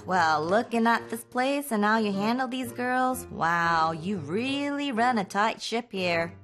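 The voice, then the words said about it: Put-on southern accent. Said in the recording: “I love the southern accent.”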